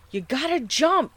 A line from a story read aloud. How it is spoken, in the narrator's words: I shouted out once more